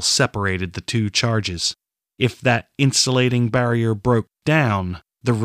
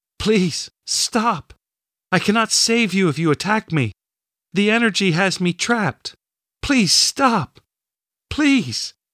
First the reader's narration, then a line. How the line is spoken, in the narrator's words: she wailed